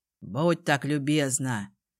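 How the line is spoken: Gloomy reply. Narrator (Russian): Мрачно отозвался отец

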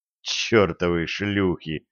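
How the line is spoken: Whisper. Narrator (Russian): прошептал он

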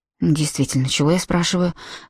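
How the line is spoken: Muttering. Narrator (Russian): пробормотал Робби

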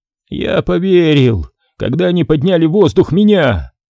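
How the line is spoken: Hoarse, breathless. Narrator (Russian): хрипло выдохнул Изри

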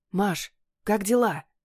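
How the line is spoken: Whisper through door. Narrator (Russian): Доносится из приоткрытой двери шепот Дениса

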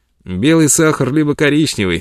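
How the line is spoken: Cheerful. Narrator (Russian): весело говорил он

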